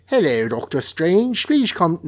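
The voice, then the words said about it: Put-on London accent. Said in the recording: “with my London accent”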